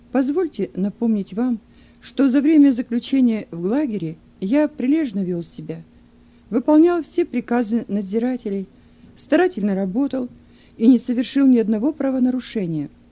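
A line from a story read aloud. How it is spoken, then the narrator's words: Calm reply. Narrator (Russian): Юн спокойным голосом ответил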